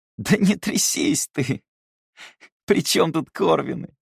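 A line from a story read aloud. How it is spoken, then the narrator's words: Almost sympathetic, through laughter. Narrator (Russian): Почти сочувственно произнес он сквозь смех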